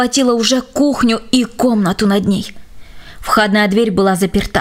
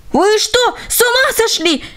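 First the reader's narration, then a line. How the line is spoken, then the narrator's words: Shouting. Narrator (Russian): закричал он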